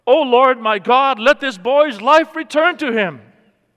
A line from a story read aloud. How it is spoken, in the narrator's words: he cried out to God